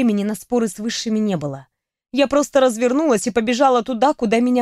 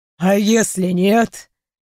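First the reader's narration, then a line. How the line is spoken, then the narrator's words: Skeptical snort. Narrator (Russian): хмыкнул Тиклукейл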